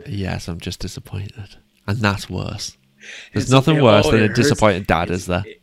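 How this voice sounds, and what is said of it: British accent. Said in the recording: “It hurts hearing that in a British accent, too, because that is, it's got a little bit of that tinge to it.”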